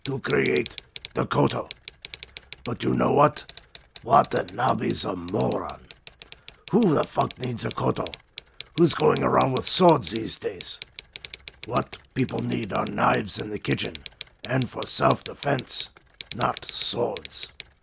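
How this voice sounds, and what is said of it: Bad fake Japanese accent. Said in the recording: “My deepest apologies to the Japanese. What a shitty accent I tried ... more horrible, terrible accents”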